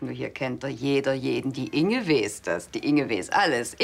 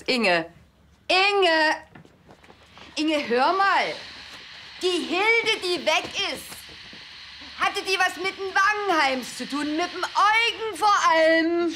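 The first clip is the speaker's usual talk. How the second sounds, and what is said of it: Shouting loudly. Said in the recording (German): “Schrei doch nicht so.”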